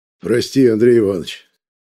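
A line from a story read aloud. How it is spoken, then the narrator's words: Hoarse chairman speaking. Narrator (Russian): хрипло говорит председатель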